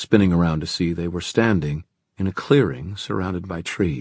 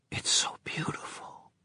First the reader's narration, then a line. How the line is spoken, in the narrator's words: she whispered